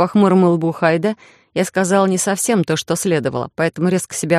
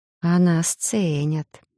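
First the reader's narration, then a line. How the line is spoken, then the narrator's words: Harsh smirk, pensive mutter. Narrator (Russian): усмехнулась я жестко и задумчиво пробормотала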